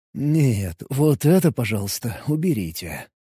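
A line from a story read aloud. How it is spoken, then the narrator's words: Mumbled. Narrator (Russian): пробормотал я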